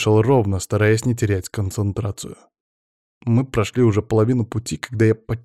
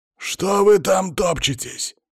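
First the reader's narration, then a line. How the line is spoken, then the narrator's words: Growling over headphones. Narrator (Russian): зарычал в наушниках Палыч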